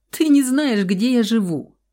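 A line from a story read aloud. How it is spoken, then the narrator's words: Laughing. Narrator (Russian): засмеялась она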